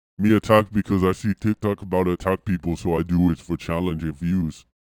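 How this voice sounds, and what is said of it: Imitates another person's voice. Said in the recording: “that voice ... it almost becomes a Schwarzenegger impression”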